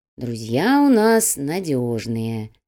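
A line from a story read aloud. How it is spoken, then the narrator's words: Slow reply. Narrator (Russian): медленно ответил Чайка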